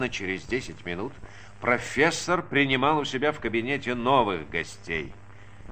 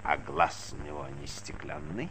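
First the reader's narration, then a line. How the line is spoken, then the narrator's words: Hoarse child's question. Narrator (Russian): спросил маленький хрипло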